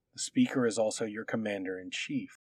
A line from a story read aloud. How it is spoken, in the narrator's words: he muttered